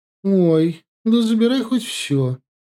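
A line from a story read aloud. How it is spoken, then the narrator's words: Cheerful offer, female. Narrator (Russian): радостно предложила соседка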